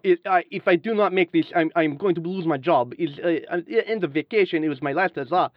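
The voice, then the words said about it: Put-on Eastern European accent. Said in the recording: “Which accent are you going for? ... Kind of, you know, Ukrainian, Eastern European, Russian.”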